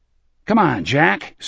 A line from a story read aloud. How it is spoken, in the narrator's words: Smokey called impatiently from the bar